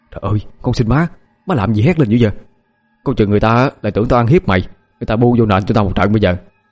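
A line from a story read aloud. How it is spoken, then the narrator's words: Panicked quiet pleading. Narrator (Vietnamese): Mình hốt hoảng nhỏ giọng năn nỉ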